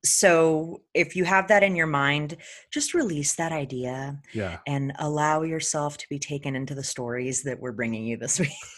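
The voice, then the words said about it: Soft soothing ASMR yoga voice. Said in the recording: “I was trying to do like my yoga ASMR voice ... that turned into some ASMR there ... you might just put me to sleep. You keep talking like that”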